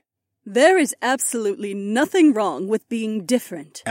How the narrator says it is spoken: Aliona said in a firm voice

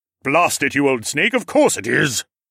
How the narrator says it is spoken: growled

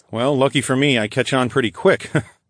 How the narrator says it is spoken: I chuckled

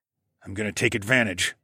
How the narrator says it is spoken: I grunted

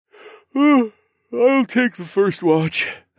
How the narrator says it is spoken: I said, even though my words came out through a yawn

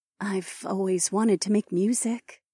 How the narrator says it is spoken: Chandra said as she looked wistfully

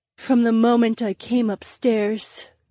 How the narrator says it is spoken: the brunette breathed

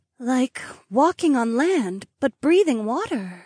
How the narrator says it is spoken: Ravi sighed

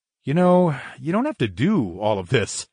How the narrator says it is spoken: grunted

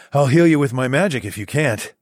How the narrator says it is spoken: I chuckled

